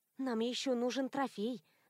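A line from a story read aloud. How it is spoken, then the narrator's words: Thoughtful murmur. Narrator (Russian): задумчиво пробормотала я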